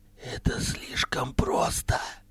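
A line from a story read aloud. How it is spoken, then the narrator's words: Whisper in ear. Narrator (Russian): прошептал он ему на ухо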